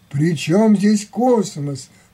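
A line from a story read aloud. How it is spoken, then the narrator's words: Involuntary exclamation. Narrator (Russian): невольно воскликнул читатель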